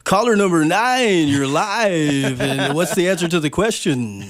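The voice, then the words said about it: Put-on radio announcer voice. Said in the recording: “do my radio voice real quick ... Can I do my radio voice?”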